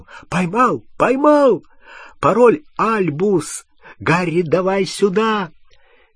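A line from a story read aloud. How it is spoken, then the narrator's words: Excited shouting. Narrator (Russian): Рон взволнованно закричал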